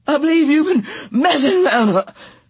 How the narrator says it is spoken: she panted furiously

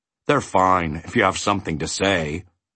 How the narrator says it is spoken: replied Tok in a tired voice, for he was much more interested in finding a bone than in shopping for new words

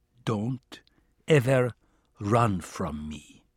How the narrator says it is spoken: he said in a low, threatening tone

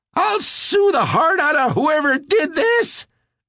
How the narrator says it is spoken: Elmer screeched

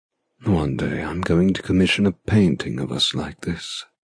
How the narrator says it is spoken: he says quietly

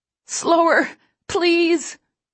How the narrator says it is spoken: I plead from the floor, between contractions

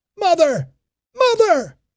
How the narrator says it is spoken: he shouted

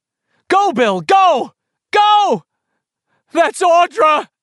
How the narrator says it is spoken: Bill shouted desperately

